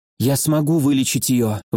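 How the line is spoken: Breathy exhale. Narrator (Russian): выдохнула Нитья

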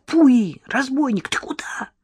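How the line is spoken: Exclamation. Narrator (Russian): воскликнул Леня

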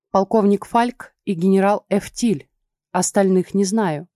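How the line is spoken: Plain. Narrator (Russian): ответила я

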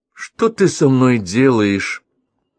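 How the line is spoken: Gloomy. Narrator (Russian): Он сказал это, мрачно

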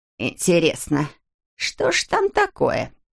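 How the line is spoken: Creaky voice, woman. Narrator (Russian): проскрипела Морин

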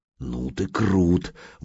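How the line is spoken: Admiring whisper. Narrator (Russian): восхищенно прошептала Алена

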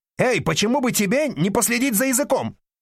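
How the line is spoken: Man shouting. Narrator (Russian): закричал мужчина с ребенком

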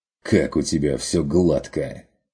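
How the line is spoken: Snorting. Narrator (Russian): фыркнул Ван Ален

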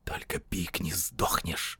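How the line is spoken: Hissing voice. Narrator (Russian): прошипел голос

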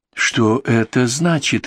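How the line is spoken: Strained, forced out. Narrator (Russian): выдавил из себя Генри Гловер

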